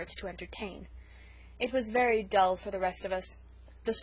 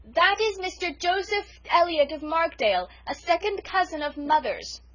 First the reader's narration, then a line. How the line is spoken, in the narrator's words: Cecily, shouting